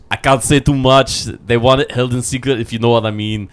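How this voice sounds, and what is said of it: Bad impression of another person's voice. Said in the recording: “my bad Arnold Schwarzenegger impression ... your bad Arnold impression”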